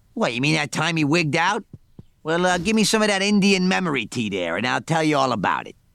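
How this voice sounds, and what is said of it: Cartoon bartender character voice. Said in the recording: “I don't normally talk like that, so let me get back in my Mo voice”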